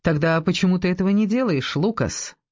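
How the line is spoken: Mocking yet weighty question. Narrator (Russian): спросила она насмешливо, но весомо

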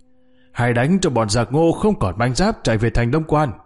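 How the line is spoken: Loud battle shout. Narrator (Vietnamese): Bình Ngô đại tướng quân hét to

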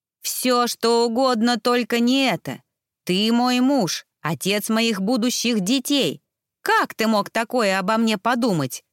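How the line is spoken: Furious roar. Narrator (Russian): взревела статная красавица

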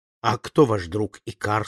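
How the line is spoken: Plain. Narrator (Russian): спросил я

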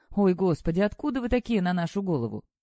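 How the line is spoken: Laughing, female doctor. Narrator (Russian): Сквозь смех сказала врач

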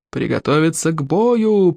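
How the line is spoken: Creaky old voice. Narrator (Russian): проскрипел старейший старейшина

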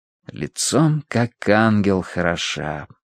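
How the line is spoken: Mumbled. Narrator (Russian): пробормотал

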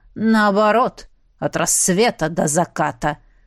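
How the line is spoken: Clipped through teeth. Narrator (Russian): процедил герцог

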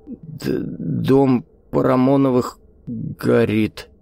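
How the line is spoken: Stammering old man's mutter. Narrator (Russian): заикаясь, пробормотал старик

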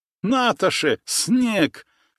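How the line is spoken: Guffawing and sneezing. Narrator (Russian): Штраубе снова захохотал, расчихался даже

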